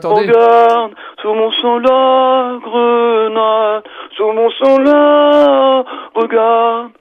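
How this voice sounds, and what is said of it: Imitates another person's singing voice. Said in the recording (French): “Clara Luciani, comment on fait Clara Luciani ? ... c'est le matin de Clara Luciani au réveil”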